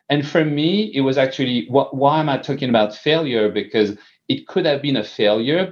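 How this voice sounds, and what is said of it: French accent. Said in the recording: “your French accent ... I still have an accent”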